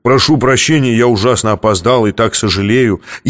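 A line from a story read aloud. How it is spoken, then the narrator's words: Thick bass proclamation. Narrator (Russian): какой-то дурак жирным басом провозгласил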